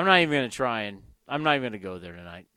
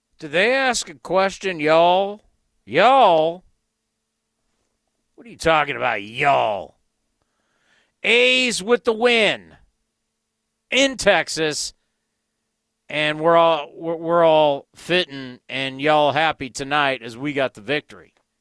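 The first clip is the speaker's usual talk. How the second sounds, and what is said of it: Poor put-on Southern accent. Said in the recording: “I got a horrible Southern accent. ... It's not good.”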